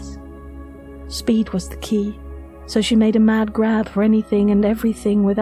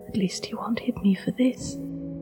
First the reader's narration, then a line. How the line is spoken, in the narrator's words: she had whispered to herself